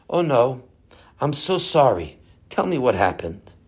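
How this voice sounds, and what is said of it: Quiet, soft-spoken voice. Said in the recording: “in a quiet voice”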